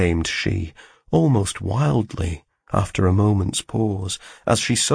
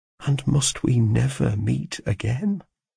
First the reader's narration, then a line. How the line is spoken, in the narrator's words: I murmured in the anguish of my soul